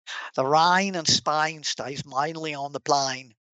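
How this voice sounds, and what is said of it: Put-on Cockney accent. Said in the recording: “a Cockney accent ... go watch My Fair Lady with Audrey Hepburn ... to a proper Brit, that's horrible”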